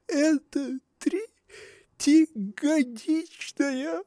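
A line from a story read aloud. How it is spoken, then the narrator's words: Sobbing. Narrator (Russian): проговорила, всхлипывая, Анна Павловна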